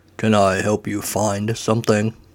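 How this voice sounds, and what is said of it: Deep intoning voice. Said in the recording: “A deep voice intones.”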